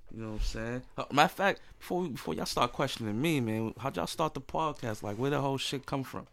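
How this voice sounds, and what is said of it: Voice rough from a cold. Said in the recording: “Excuse my voice. ... I'm fighting this cold off”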